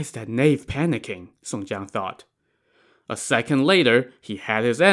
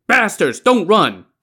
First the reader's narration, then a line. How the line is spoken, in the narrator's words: this guy shouted